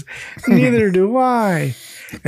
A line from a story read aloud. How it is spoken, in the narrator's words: Bobby laughs and says